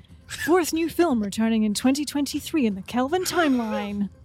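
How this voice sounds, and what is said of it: News presenter voice. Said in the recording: “do it my presenter voice”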